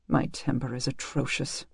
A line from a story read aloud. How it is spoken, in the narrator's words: muttered